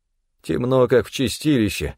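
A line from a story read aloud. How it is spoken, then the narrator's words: Grumbling. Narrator (Russian): проворчал один из них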